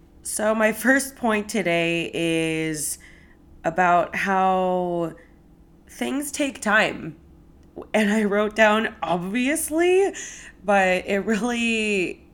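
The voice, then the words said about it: Croaky, slightly rough voice. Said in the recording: “I'm feeling a little under the weather, so my voice might be a little croaky”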